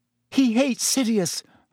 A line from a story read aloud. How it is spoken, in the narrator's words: Hermione said desperately